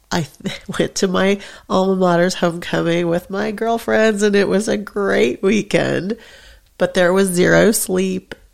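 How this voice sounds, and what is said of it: Sick-sounding voice. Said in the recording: “if you can't still hear it in my voice, I was sick, and I still am. I'm still coughing.”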